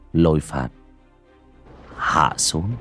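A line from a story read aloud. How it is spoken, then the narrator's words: Soft, casual voice. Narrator (Vietnamese): hời hợt, miệng khẽ nói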